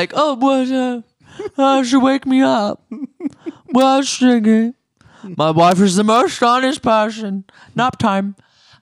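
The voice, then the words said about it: Sleepy imitation of another person's voice. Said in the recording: “that was my Ken Todd impersonation ... A sleepy Ken Todd”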